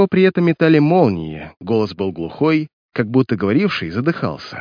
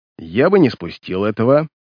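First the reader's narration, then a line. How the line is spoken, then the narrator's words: Spiteful. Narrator (Russian): злобно вымолвил Мэрс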